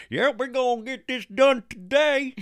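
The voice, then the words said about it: Put-on Southern hillbilly voice. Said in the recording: “A dubbed Southern hillbilly voice.”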